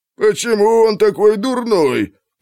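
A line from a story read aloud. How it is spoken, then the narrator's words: Moaning. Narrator (Russian): простонал он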